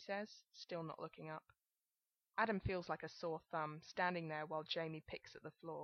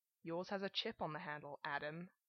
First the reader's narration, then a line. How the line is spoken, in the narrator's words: Jamie says, the mimicry finally giving his voice a hostile edge